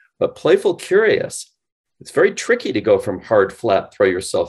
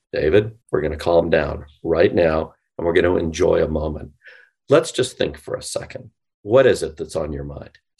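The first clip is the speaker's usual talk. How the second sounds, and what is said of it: Smooth late-night FM DJ voice. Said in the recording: “Late night FM DJ voice ... See, late night FM DJ voice I can do.”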